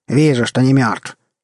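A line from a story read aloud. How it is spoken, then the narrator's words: Snapping, irritated. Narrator (Russian): огрызнулся незнакомец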